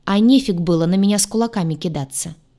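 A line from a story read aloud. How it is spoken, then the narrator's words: Snapping back. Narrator (Russian): огрызнулась я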